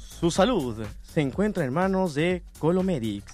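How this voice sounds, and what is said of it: Radio announcer voice. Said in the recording (Spanish): “tienes voz de locutor”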